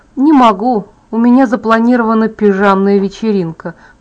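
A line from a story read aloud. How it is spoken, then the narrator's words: Grumbling. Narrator (Russian): проворчала я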